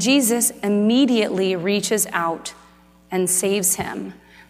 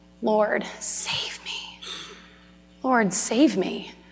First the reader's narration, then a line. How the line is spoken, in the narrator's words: Peter cries out